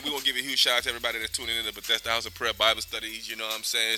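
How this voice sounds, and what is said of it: Talking very fast. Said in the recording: “I don't know why I'm talking so fast. ... You talking real fast.”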